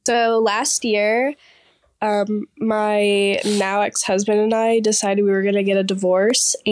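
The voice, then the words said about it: Sick-sounding voice. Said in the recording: “apologize for my voice, but I'm sick”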